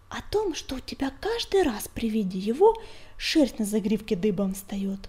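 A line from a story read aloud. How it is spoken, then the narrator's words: Whispered reply. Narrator (Russian): шепотом ответил клубок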